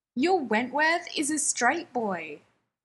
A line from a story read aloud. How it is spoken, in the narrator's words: Mike shouts, sounding almost gleeful